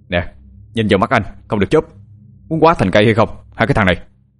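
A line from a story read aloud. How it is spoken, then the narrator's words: Sharp scolding. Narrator (Vietnamese): Anh Hùng nạt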